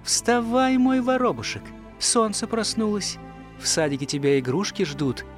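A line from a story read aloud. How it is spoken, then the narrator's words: Mother laughing. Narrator (Russian): мама … будила по утрам, смеясь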